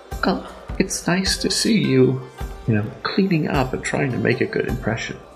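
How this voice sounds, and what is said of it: Faint whisper. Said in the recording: “You hear the faintest whisper of Blossom in your head”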